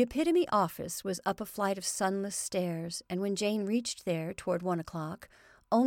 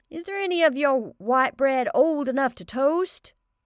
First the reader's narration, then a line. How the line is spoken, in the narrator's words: she shouted needlessly